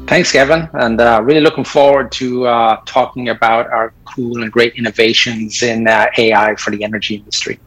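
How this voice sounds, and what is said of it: Slight British Isles accent. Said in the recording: “as you can catch a little from the accent, ... is not a native of the U.S. In fact, we were both born in the British Isles.”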